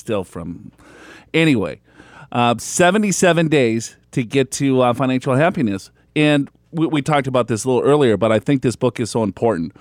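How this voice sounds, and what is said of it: Big thick accent. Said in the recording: “I got a big thick accent”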